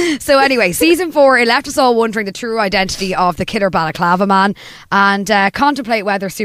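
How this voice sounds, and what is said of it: Usual voice. Nothing is said of it.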